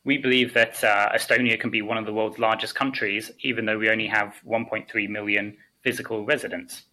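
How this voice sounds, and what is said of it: Strained, failing voice. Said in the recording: “before I lose my voice”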